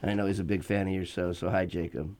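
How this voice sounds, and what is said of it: Sarcastic tone. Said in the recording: “That was sarcasm, by the way.”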